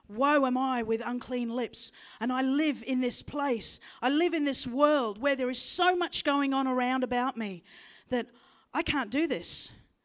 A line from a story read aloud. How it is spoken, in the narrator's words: that seraphim cried out with his heart